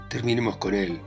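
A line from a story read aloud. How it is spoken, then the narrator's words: Wild shouting. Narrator (Spanish): grita Mikolka como un loco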